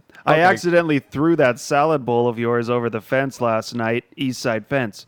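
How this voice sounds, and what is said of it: Imitates another person's voice. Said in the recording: “In your best Cole voice.”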